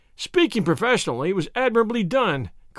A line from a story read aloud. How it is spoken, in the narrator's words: cried I, looking in amazement